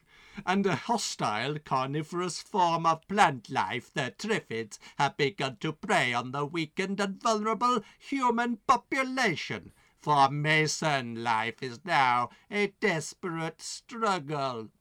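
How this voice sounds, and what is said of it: Terrible put-on accent. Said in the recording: “that terrible accent”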